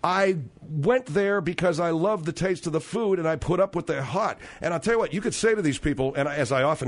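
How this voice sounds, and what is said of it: Usual voice. Nothing is said of it.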